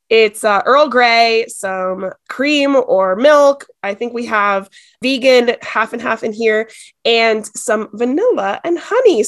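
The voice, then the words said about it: Sick-sounding voice. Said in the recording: “I'm sick ... forgive my voice,”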